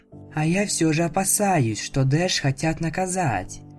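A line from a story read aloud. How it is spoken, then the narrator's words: Quiet mutter. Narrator (Russian): тихонько себе под нос сказала Флаттершай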